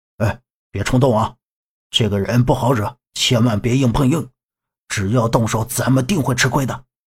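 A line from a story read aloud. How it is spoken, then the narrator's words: Soft, urgent voice. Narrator (Chinese): 把子立刻站到杨木的身边，轻声说道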